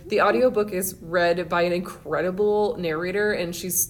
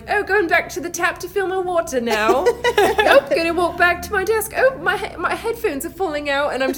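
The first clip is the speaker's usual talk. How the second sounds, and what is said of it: Put-on British accent. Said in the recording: “all week I've been thinking in my head in British ... speaking in a British accent”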